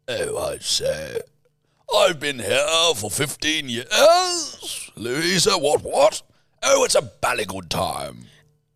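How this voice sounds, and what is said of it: Put-on posh English accent. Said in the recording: “Do you want posh or do you want working class?”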